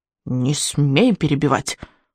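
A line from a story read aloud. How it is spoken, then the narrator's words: Growling old man. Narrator (Russian): рыкнул старый сморчок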